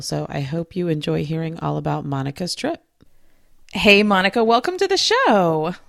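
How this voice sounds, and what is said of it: Sick, congested voice from a cold. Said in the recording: “As you can probably hear from my voice, I came down with a pretty nasty cold”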